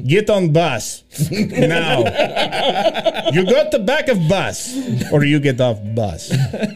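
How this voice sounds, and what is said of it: Put-on Eastern European accent. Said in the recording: “adopt a Eastern European accent.”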